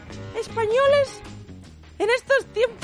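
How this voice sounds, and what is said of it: Squeaky high-pitched imitation of another person's voice. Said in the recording (Spanish): “Estaba intentando hacer la voz de Franco... Es que me sale muy pito.”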